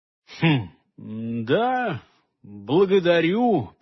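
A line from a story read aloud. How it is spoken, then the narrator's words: Mumbling. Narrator (Russian): промямлил Хольгер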